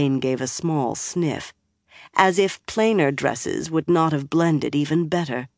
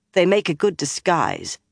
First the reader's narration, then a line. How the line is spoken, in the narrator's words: replied curtly